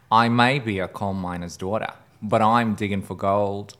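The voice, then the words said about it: Deliberately bad put-on Australian accent. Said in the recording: “I'm going to do a terrible Australian accent. It's going to be really bad”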